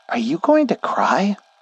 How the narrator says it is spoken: The voice came from behind me, and it piped up completely unexpectedly

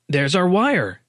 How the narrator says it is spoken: Dave Miller exclaimed

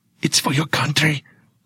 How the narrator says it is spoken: I whisper

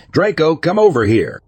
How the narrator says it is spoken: yelled out

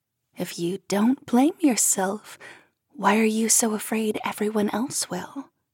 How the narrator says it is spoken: whispering in my ear

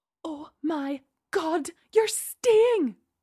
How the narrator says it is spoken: she exclaimed

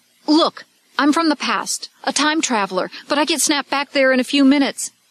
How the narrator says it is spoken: He blurted out

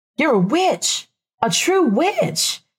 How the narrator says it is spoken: Rebecca exclaimed, delighted

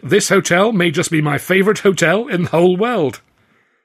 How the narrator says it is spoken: Mike exclaimed

